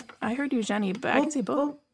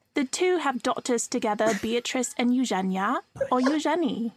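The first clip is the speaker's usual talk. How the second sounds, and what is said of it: Put-on British accent. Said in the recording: “I could do an accent if it make it a little funnier. ... Make it British. ... Very good. Very good.”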